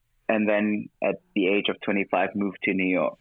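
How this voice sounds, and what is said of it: German-infused mixed international accent. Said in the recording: “German-infused accent ... my accent kind of adapts to my environment. It's a little bit of everything in there”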